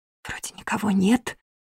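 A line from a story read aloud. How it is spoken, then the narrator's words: Barely audible whisper. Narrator (Russian): прошептала я одними губами, на грани слышимости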